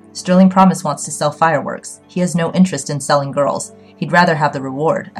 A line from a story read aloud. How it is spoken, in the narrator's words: said